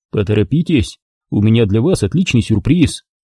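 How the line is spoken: Promising. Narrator (Russian): пообещал я

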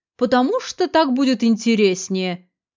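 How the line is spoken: Sarcastic theatrical mimicry. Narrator (Russian): передразнивая театральную манеру Виолетты, язвительно ответил Виктор Валентинович

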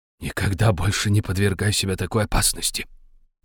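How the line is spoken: Whispered. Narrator (Russian): прошептал он

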